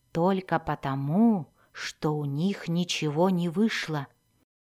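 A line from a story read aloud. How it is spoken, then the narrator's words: Whispered. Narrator (Russian): прошептал Зак Дзирту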